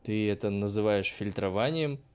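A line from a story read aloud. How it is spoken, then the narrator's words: Scornful snort. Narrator (Russian): фыркнул учитель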